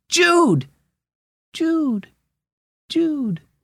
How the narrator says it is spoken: his voice echoed back

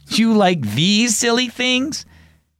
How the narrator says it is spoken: Dad laughed

